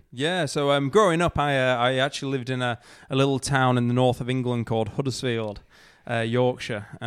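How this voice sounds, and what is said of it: Slight non-Australian accent. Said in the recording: “You've got a bit of an accent, so I don't think you're from you're from Melbourne”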